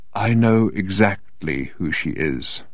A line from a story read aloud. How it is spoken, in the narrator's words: said Odin in a quiet but distinct voice